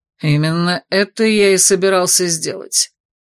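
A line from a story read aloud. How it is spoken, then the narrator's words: Through gritted teeth. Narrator (Russian): процедил незнакомец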